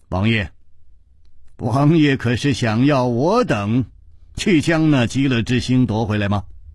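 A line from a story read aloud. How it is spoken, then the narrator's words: Smiling. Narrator (Chinese): 楚留香却微笑着说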